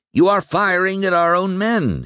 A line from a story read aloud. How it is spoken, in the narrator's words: he cried